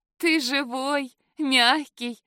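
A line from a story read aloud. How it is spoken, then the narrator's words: Giggling. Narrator (Russian): хихикнула я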